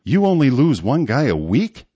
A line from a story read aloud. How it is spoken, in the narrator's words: Sean said with a quivering laugh